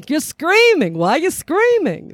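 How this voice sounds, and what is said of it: Put-on Jewish mother dialect. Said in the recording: “I usually will break into like my Jewish mother dialect when I do it”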